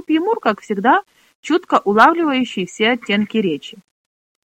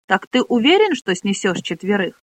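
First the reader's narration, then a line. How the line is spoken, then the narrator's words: Plain. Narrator (Russian): спросил он Рута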